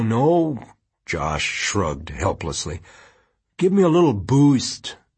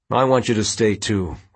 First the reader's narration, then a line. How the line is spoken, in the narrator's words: Quentin said